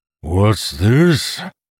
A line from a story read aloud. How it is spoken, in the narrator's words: Orathisian bellowed with amusement